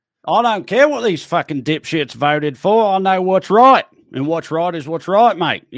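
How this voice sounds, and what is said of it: Bad put-on Australian accent. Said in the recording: “A very bad Aussie accent”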